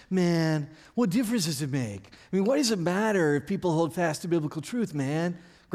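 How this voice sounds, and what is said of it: Imitates another person's voice. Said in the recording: “your best Daryl Hall imitation”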